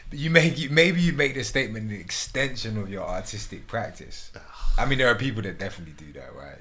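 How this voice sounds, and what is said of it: British accent. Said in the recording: “I think it's the British accent, though.”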